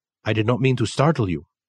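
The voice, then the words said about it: Thick Japanese accent. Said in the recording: “in his thick Japanese accent.”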